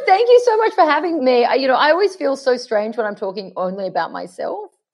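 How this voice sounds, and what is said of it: Australian accent. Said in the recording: “Aussie accent”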